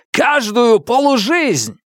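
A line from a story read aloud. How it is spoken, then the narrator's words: Loud laughter. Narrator (Russian): Темса и Хирана расхохотались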